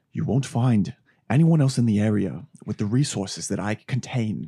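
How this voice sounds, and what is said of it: Theatrical impression of a film character. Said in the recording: “I think these are both bad, what you're doing... whenever I try and do a Daniel Plainview... it's way more theatrical. It has theatrics to it.”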